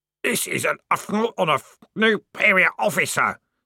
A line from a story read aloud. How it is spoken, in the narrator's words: screamed the corporal in a muffled voice